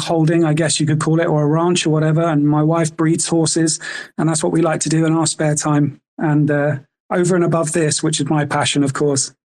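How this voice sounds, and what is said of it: British English accent. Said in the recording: “I take it from your accent, you're from the UK?”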